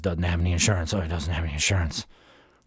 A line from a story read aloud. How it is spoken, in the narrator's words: The whisper was repeated and muttered throughout all the voices